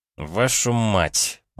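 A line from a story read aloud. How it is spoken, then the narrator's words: Through clenched teeth. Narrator (Russian): процедил я сквозь зубы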